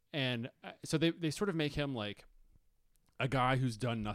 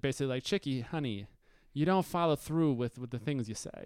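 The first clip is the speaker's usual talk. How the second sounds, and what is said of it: Put-on New York accent. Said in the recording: “the New York accent ... I'm getting worse. Somebody stop doing it.”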